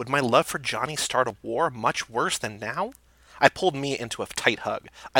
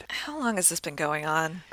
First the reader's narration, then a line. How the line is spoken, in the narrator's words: I sighed